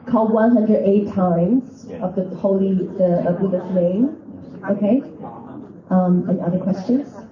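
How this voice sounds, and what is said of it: American accent, congested nasal voice. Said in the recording (Chinese): “你的鼻子又不好，讲啊，声音靠前一点啊，又伤风又感冒又美国口音”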